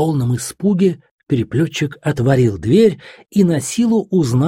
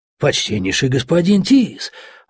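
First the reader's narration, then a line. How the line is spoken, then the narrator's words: Astonished exclamation. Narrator (Russian): воскликнул изумленный Лаймерхирт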